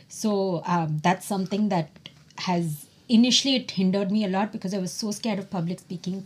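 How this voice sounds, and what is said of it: Non-American accent in English. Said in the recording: “my accent is so different from um, an American accent”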